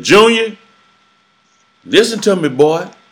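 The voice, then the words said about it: New Orleans Creole twang accent. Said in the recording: “with that New Orleans twang accent, you know, that Creole accent”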